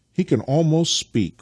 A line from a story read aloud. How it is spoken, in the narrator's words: cried Nikita